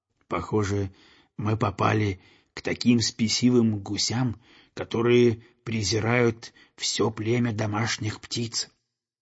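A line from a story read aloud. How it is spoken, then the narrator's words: Quiet speech. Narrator (Russian): он тихо сказал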